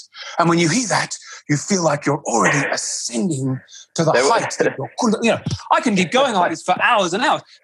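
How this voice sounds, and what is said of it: Ultra-spiritual yoga teacher voice. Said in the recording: “my very ultra spiritual yoga teacher voice”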